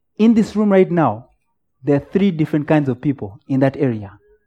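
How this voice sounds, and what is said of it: Speaker's own noticeable accent. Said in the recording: “maybe she's struggling with my accent. Are you struggling with my accent?”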